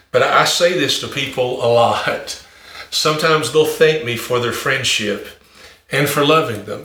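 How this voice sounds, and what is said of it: Country accent. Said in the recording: “I'm a country boy ... I know my accent is country and there's not a really a dumb thing I can do about it”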